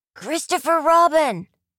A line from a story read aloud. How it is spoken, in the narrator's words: called out to his friend below